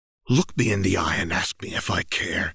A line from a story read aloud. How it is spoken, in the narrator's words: hissed